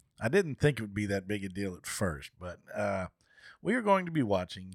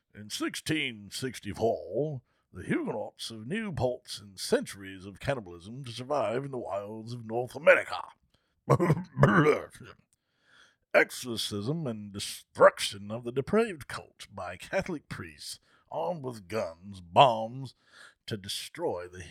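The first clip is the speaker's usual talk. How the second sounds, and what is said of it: Put-on English scholar reading voice. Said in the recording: “I'm going to read it in my English scholar voice.”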